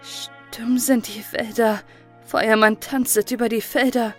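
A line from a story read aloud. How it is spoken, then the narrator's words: Unsteady voice. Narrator (German): Frau Stine mit unsicherer Stimme selbst fortfuhr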